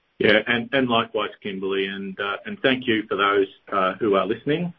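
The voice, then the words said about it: Noticeable accent. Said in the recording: “try and speak clearly and try and avoid confusion with my accent. So if you are having trouble understanding me”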